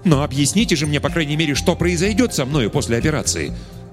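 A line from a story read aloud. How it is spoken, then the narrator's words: Irritated exclamation, blind man. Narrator (Russian): раздраженно воскликнул слепой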